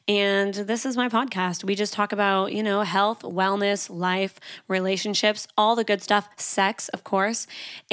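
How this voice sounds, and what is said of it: Canadian accent. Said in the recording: “I'm Canadian, so my accent can be a little bit crazy sometimes”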